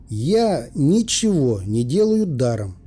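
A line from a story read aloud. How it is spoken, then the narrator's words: Plain. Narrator (Russian): сказал я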